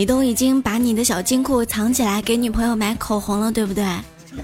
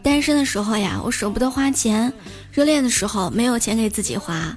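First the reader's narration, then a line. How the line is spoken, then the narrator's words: Gentle. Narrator (Chinese): 秀秀好温柔说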